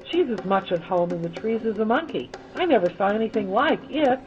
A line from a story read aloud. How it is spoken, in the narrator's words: exclaimed Brown admiringly